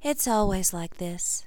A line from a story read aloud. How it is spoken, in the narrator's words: she said softly